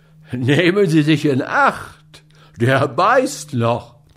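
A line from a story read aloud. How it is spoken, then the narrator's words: Spectator calling out. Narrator (German): rief jemand unter den Zuschauern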